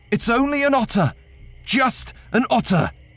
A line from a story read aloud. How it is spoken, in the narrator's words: so I shouted